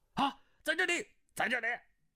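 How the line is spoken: Guards calling out. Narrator (Chinese): 众卫士叫道

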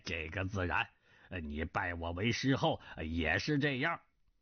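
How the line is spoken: Laughing, not angry. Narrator (Chinese): 南海恶神不怒反笑，说道

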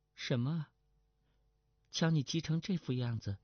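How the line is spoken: Flat, indifferent. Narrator (Chinese): 程灵素淡淡的道

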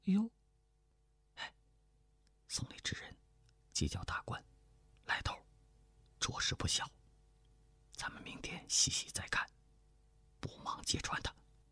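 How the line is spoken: Soft voice. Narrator (Chinese): 胡斐轻声说道

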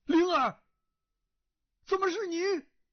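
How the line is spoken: Calling out. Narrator (Chinese): 他叫声

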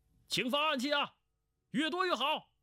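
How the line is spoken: Shouting. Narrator (Chinese): 胡斐叫道

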